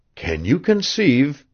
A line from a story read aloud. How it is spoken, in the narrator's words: asked Devant hoarsely